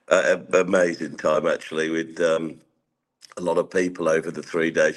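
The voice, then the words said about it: Hoarse voice. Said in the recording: “You can tell my, my voice is quite hoarse.”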